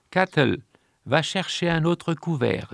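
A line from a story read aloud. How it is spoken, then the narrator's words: Plain. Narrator (French): dit Cobus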